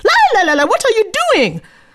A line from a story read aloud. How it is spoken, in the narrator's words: The sudden loud scream